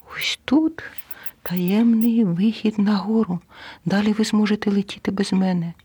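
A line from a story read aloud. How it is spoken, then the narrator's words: Squeaky mouse voice. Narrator (Ukrainian): миша пропищала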